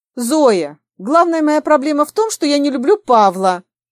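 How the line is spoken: Forced, strained words. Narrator (Russian): выдавила из себя Таня

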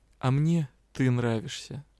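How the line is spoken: Soft, warm reply. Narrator (Russian): Риан вдруг как-то тепло улыбнулся и тихо ответил

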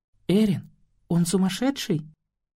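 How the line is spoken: Barely audible question. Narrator (Russian): Едва слышно спросила Марита

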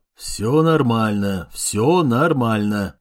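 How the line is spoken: Mumbling. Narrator (Russian): пробурчал Гуров

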